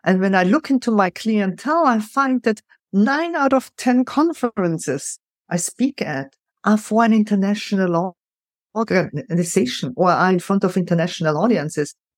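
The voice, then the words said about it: Noticeable foreign accent in English. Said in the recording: “totally embracing my accent ... they can't come up with a better accent like this”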